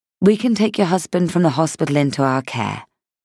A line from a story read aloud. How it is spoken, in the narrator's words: she said, her voice quietly respectful